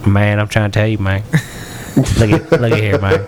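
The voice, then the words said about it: Put-on redneck Southern accent. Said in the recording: “my redneck voice ... I am adept at talking like a redneck ... Oh, you can redneck talk?”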